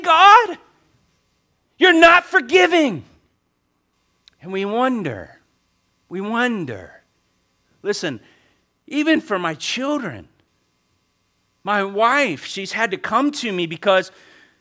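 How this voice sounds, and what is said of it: Loud, raised preaching voice. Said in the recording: “I'm raising my voice in a right way this morning”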